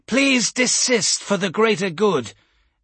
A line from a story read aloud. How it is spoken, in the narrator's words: Elsarath must have had an amplivox function built into his caster, because his voice rang out across the crowd